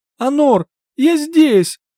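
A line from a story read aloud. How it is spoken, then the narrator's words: Shouting. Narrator (Russian): закричала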